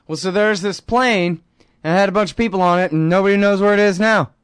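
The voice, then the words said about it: Mock cable news anchor voice. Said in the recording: “my best CNN impression.”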